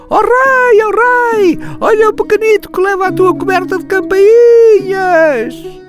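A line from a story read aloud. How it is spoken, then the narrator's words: Parrot shrieking. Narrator (Portuguese): O papagaio do rei turco gritava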